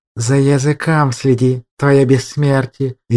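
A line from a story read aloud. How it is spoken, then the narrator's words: Venomous hiss. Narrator (Russian): ядовито прошипел магистр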